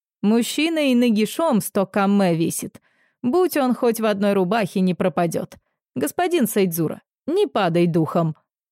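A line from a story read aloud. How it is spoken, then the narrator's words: Plain. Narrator (Russian): сказал он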